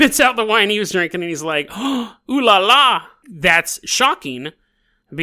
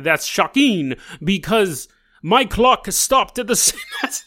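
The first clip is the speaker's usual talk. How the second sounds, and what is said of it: Attempted French accent, sounds like Dracula. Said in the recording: “I should be doing a French accent this whole time ... That sounds more like Count Dracula. It sounds like the Count from Sesame Street. ... crazy accent”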